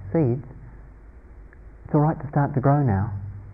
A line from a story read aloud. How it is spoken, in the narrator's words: he whispered rather gently